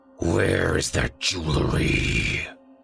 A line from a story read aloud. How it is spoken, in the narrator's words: he snarled